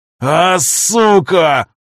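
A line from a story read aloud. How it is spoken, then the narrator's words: Roar like wounded bear. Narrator (Russian): Раненым медведем взревел Виктор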